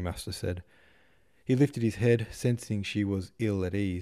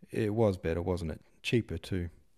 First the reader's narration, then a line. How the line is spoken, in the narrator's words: he muttered